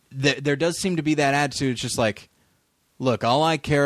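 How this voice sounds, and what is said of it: Usual voice. Nothing is said of it.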